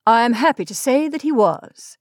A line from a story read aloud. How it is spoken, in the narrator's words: Scatters answered hastily